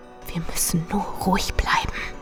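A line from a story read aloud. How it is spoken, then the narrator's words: Whispered. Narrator (German): flüsterte ich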